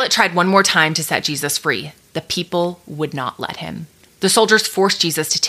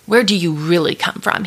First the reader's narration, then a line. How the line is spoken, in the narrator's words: he asked Jesus